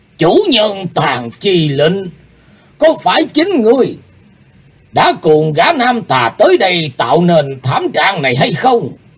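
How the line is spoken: Old man shouting angrily. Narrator (Vietnamese): Lão ta quát lên

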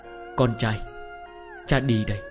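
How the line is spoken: Muttering. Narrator (Vietnamese): Nam nhân lẩm bẩm

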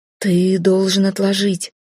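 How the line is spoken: Even, calm. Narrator (Russian): ровно спокойно сказал Хал

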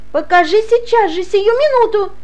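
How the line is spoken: Shrill shout. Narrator (Russian): Кричала она пронзительно

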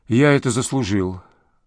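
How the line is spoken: Sighing. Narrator (Russian): вздохнул

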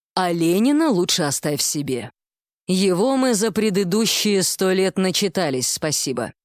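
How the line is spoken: Gloomy summing up. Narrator (Russian): мрачно подытожила директриса

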